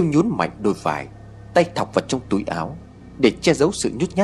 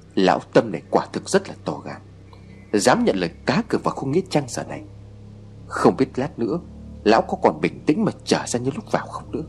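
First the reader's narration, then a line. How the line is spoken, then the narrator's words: Soft whisper. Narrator (Vietnamese): Cậu khe khẽ xì vào tay của Siêu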